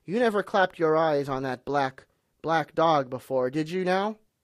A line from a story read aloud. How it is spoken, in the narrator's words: said Long John very sternly